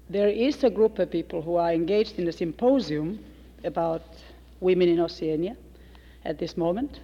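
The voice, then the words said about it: Speaks with a noticeable accent. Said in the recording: “so that you'll get used to my accent”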